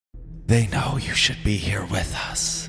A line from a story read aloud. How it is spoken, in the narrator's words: the whispering voice told me